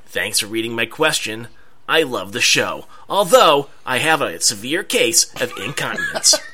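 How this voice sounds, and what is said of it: Imitates another person's voice. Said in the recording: “worst Casey Kasem impersonation I've ever heard, A for effort, though ... yours isn't bad. When I close my eyes, I almost think of Casey Kasem”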